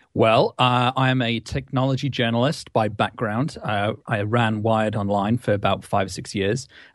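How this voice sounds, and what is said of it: British accent, voice with a cold. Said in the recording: “my stinking cold ... So you've got a stinking cold, which is sounds good with the British accent”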